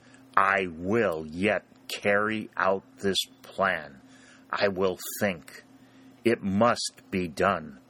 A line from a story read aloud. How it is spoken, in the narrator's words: he said slowly, biting each word